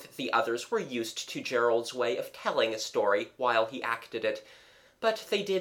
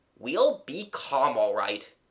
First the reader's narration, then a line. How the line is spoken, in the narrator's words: said Jimmy impatiently